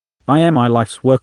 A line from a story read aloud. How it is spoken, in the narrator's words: stammered, incapable of finding a single point to focus on